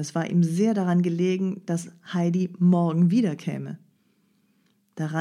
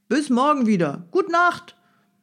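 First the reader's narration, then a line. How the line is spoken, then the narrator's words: Calling after someone. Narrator (German): Der Peter rief dem Heidi nach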